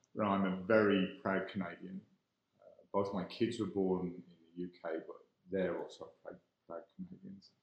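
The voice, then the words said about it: Irish-English accent. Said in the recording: “I am born in Ireland, raised in England. So I'm clearly, from my accent, not a native Calgarian”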